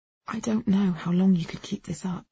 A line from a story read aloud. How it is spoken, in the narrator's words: I said softly